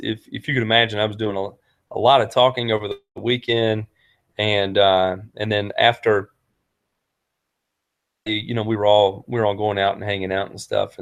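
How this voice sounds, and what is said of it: Strained, fading voice. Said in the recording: “I'm actually starting to lose my voice.”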